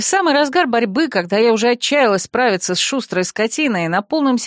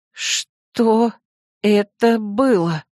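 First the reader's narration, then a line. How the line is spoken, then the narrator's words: Breathless exhale. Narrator (Russian): выдохнула я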